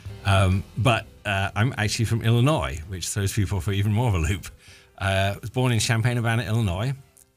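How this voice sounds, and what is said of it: Non-local accent. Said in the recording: “He doesn't sound like he's from around here. ... you can obviously tell from my accent I'm not from around here”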